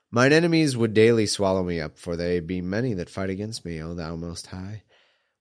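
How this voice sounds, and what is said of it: Congested, nasal voice. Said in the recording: “I'm a little congested, so that's why I sound a little weird.”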